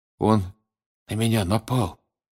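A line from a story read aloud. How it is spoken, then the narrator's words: Weak voice. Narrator (Russian): слабым голосом проговорил Крам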